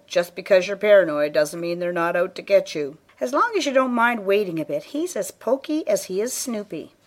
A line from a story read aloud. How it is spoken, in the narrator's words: Cliff chuckled